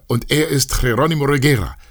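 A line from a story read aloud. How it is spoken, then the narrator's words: Shouting voice. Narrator (German): schrie eine Stimme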